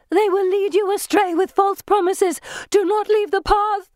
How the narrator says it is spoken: she scream

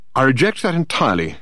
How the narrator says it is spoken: said Dirk sharply

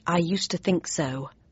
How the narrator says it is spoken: I said under my breath

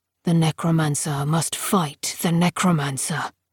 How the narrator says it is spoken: Silas said quietly

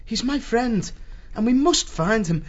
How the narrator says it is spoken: he said anxiously

